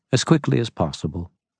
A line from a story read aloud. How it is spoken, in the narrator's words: she said calmly